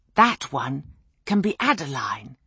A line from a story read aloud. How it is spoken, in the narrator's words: the missus whispered